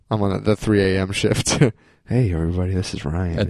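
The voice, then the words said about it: Late-night radio DJ voice. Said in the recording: “It's my late night radio voice.”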